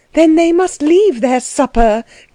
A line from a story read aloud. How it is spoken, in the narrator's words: cried Anna